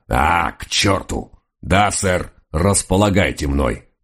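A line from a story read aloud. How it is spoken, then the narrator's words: Growling, righteously offended dog. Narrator (Russian): прорычал честный доберман, и его праведную обиду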